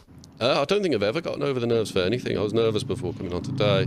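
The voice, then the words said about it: British accent. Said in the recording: “I was completely lost in your accent... it automatically sound more sophisticated... all the way from the UK”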